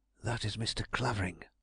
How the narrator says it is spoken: I whispered, with all the self-possession I could muster

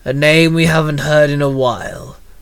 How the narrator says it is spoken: Lefang growled

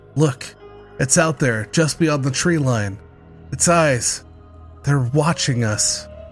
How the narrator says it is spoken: He gasped

